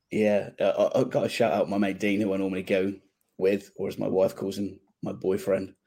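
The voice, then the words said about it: Slightly hoarse voice. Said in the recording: “I'm a bit hoarse. A lot of shouting yesterday.”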